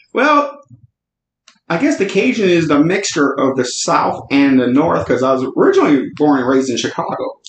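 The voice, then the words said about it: Slightly Cajun Southern accent. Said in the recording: “you have this lovely accent. I always tell you, you have a great accent. And it's a little Cajun, a little spicy.”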